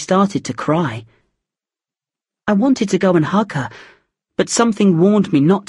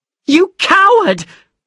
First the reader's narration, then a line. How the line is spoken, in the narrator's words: screamed